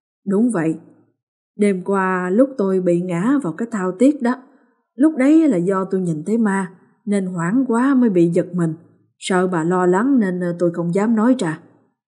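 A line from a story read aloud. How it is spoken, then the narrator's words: Sighing, then speaking. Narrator (Vietnamese): Thở dài một hơi, ông gật đầu rồi nói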